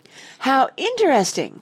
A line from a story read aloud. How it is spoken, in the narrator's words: cried the lady